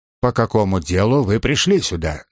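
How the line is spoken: Stern question. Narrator (Russian): строго спросил Джонс

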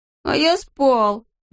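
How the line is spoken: Whimpering. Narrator (Russian): захныкал Алешка

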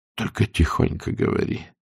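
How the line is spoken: Whisper. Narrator (Russian): перешел на шепот Берг

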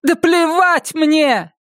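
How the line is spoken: Shouting. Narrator (Russian): я прям закричала

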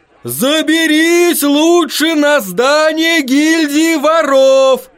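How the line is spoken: Man shouting. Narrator (Russian): кричал один мужчина

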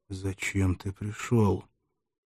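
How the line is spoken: Whispered question. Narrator (Russian): Спартак улучил минуту, чтобы шепотом спросить молодого Галла

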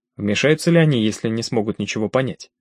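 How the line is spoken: Asked as quietly as possible. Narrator (Russian): Уокер задал свой вопрос тихо, как мог

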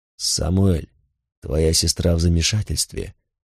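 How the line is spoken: Quiet male voice. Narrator (Russian): тихо сказал он

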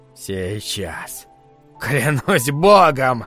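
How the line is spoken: Breathless exhale. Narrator (Russian): выдохнуло оно

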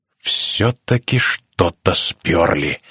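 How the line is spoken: Hissing. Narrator (Russian): зашипела Эмили

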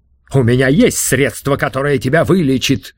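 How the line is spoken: Exclaiming. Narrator (Russian): воскликнул Тесей

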